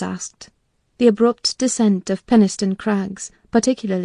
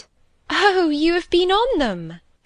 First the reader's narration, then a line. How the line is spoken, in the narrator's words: she cried gleefully